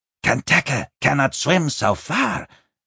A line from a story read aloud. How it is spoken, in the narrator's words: Binnebik grunted